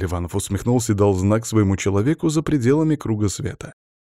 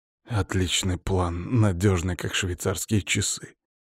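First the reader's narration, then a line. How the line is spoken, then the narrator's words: Hoarse reply. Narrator (Russian): хриплым голосом ответил я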